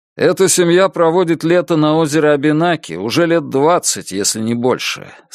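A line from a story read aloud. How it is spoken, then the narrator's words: Plain. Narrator (Russian): сказал Энди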